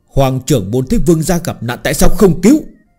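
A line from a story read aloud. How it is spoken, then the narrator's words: Angry shout. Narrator (Vietnamese): Mông Sơn Minh tức giận quát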